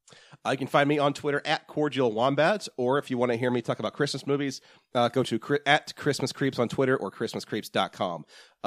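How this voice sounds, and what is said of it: Slightly scratchy, hoarse voice. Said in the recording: “if you think I sound a little scratchy right now”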